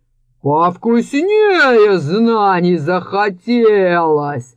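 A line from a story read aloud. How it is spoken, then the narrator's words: Snake head growling. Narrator (Russian): рыкнула главная голова змея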